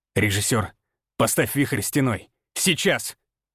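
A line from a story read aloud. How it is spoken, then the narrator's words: Forceful mental bark. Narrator (Russian): Мысленно рявкнул, вливая в приказ всю свою волю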